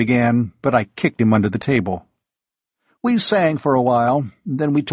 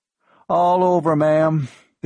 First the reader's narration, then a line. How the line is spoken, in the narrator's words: the kid told her in a miserable voice